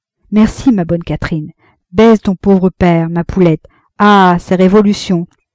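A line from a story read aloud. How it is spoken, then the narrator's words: Reply. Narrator (French): il répliqua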